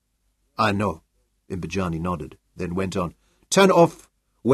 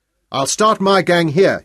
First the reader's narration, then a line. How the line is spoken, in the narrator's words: he shouted at Van Wyk